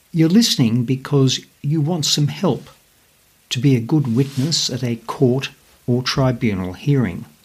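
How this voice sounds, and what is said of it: Australian accent. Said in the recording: “my Aussie accent”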